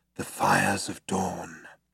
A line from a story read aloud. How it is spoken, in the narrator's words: breathed Zaphod